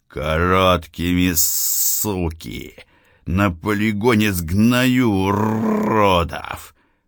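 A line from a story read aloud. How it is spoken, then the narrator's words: Angry growl. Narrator (Russian): прорычал Святов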